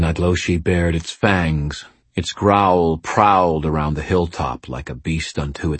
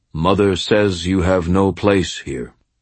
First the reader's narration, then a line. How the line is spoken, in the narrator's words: said calmly